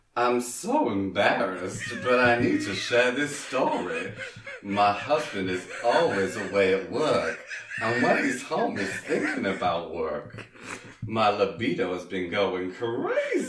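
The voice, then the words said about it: Put-on accent. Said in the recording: “I'm going to try and do this in an accent”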